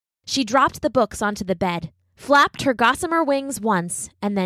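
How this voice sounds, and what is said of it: Usual voice. Nothing is said of it.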